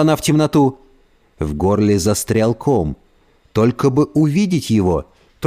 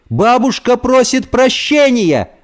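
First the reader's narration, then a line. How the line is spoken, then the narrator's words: Screaming. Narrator (Russian): завопила она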